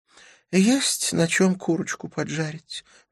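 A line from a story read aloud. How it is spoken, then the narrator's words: Sudden sad sigh. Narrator (Russian): вздохнула Памела, вдруг погрустнев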